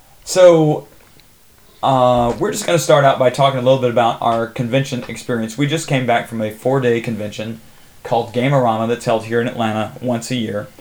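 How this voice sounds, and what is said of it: Hoarse, worn-out voice. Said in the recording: “My voice is gone as a result of spending a lot of time talking at Gamerama.”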